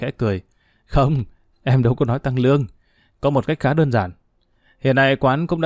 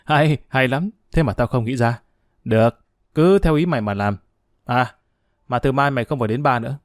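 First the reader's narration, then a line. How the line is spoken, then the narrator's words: Bursting laughter. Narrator (Vietnamese): Huy Châu cười phá lên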